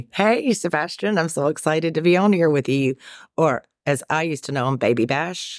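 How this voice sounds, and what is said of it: Southern US accent, Carolina-ish. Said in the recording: “you've got an accent... It sounds a little Carolina-ish... a fast-talking Southerner”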